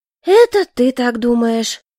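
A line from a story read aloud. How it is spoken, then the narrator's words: Heavy sigh. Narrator (Russian): тяжело вздохнула я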